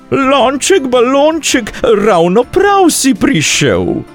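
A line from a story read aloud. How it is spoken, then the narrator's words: Calling out. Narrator (Slovenian): zaklicala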